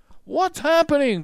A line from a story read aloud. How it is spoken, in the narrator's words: cried Leonardo